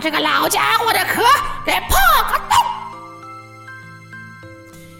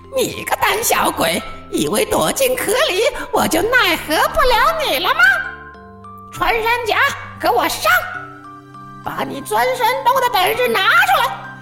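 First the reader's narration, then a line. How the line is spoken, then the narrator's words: Mocking. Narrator (Chinese): 狐狸便嘲笑道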